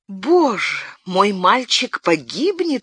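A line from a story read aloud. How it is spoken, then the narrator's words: Exclaimed. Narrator (Russian): воскликнула Алоиза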